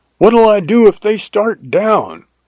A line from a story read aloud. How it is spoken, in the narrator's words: I yelled after him